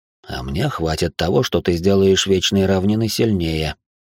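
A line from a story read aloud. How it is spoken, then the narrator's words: Plain. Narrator (Russian): ответила тень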